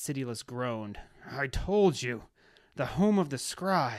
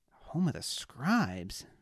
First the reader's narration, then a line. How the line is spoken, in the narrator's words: Bess said under his breath